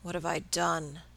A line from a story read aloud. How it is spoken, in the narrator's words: he murmured hopelessly